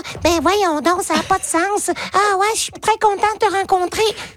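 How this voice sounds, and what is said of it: Cartoon character voice. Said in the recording (French): “faire la voix du personnage, ou comme je fais la voix de tous les personnages dans les émissions ... j'ai obligé de parler comme ça”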